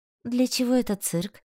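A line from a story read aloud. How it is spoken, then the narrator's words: Gloomy question. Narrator (Russian): мрачно спросила я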